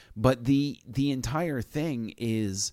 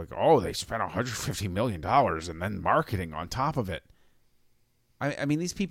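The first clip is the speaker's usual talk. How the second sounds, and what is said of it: Impression of co-host's voice. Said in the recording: “That's a terrible impression of me ... it's spot on, actually ... I sounded exactly like you”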